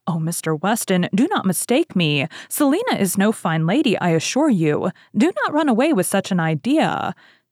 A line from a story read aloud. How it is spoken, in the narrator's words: Elton eagerly interposed with